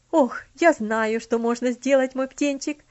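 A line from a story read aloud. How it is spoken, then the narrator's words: Sudden exclamation. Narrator (Russian): внезапно воскликнула тетушка Хлоя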